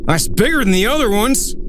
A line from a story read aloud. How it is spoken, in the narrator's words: Dale yelled